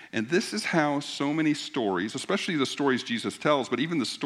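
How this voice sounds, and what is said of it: Usual voice. Nothing is said of it.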